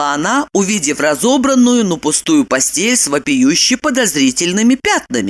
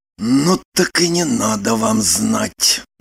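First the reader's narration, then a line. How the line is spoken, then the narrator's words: Whispered. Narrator (Russian): прошептал он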